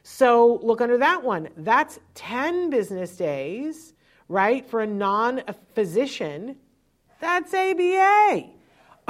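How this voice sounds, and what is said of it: Loud, yelling delivery. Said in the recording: “I'm sorry, I'm yelling.”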